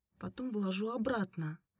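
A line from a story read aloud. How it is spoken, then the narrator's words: Quietly forced out. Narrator (Russian): тихо выдавила Оксана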